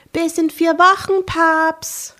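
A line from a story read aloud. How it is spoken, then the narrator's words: Calling out farewell. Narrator (German): rief verabschiedend zu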